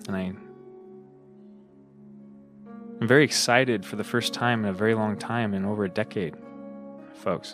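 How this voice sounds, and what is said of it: Sounds a little tired. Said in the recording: “maybe I sound a little tired”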